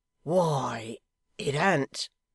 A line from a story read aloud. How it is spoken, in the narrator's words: Hugh faltered